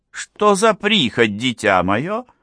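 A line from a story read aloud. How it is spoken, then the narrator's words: Displeased, stern. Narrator (Russian): сказала недовольным тоном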